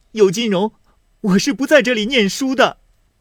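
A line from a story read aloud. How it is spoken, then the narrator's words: Crying. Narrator (Chinese): 秦钟哭道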